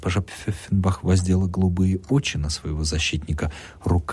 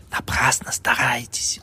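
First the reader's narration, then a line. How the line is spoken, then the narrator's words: Sarcastic whisper from behind. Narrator (Russian): съязвил шепотом сзади чиновник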